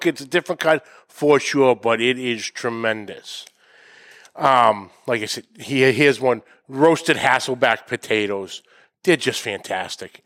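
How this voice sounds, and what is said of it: Boston accent. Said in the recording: “Obviously, with my accent, you know which chapter... Boston, Mass.”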